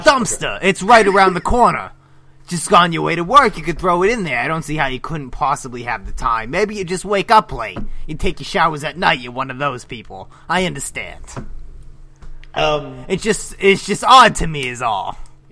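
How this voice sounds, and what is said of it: Imitates a TV detective's voice. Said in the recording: “are you doing a Columbo impression?”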